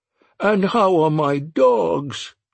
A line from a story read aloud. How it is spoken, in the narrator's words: Joan cried